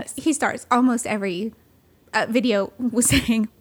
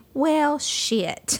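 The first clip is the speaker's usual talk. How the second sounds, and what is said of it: Imitated Southern US accent. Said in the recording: “he's got the cutest Southern accent ... That was such a good attempt at that.”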